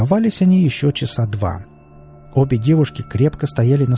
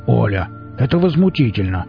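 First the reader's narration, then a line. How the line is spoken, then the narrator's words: Growl. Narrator (Russian): рыкнул Велес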